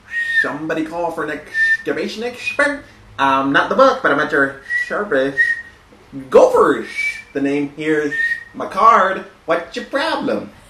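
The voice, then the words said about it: Cartoon gopher character voice. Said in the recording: “this impersonation. It's the gopher.”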